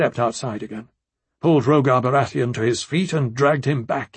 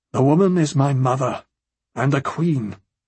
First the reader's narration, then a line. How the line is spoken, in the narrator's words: in a heavy tone